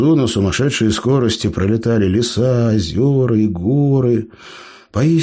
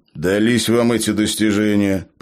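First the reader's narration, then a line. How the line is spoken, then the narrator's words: Grumbling. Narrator (Russian): проворчал Джо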